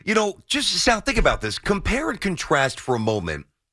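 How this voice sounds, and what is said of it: Yelling, raised loud voice. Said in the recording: “That's why I'm yelling today.”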